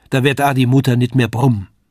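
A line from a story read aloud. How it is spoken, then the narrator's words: Call. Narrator (German): rief das Lisei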